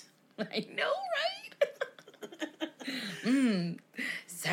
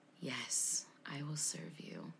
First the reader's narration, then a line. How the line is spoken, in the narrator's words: out of Adolfo's body came a heavily breathing demonic whisper that said